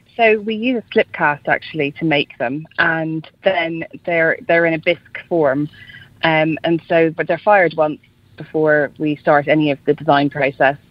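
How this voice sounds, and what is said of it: Irish accent. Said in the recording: “People might be able to tell from your accent. ... You're Irish, and you were in Dublin.”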